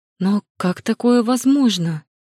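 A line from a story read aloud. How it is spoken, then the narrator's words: Incredulous exclamation. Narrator (Russian): воскликнула Лита, неверяще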